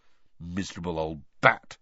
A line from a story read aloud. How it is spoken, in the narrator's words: said Ron bitterly